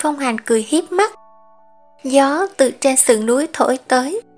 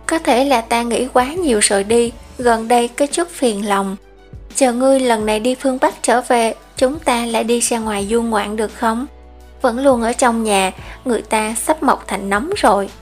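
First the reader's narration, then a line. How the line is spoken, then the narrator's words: Sighing. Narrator (Vietnamese): Hắn liền thở dài một hơi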